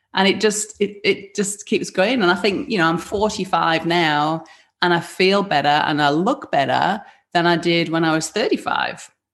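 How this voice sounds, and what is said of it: Northern English accent. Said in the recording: “a northern accent, a deep rooted northern accent ... I picked up the Yorkshire accent, didn't put it back down”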